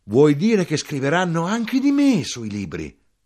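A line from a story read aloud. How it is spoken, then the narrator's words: Flushed, headlong exclamation. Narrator (Italian): rossa in faccia, fuoco e fiamme, a precipizio esclamò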